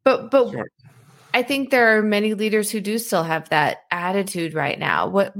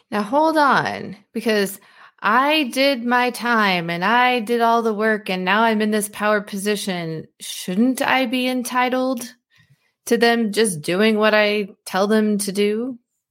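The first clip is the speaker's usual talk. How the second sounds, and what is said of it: Sarcastic delivery. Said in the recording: “I'm clearly being sarcastic”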